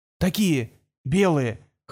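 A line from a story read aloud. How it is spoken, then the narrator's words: Hoarse whisper. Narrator (Russian): хрипло прошептал журналист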